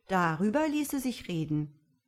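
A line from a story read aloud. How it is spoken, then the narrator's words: Young man calling. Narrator (German): rief der Jüngling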